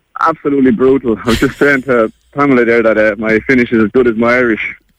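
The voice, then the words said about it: Irish accent. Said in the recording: “it doesn't sound a pure Finnish accent. You're from Ireland, aren't you?”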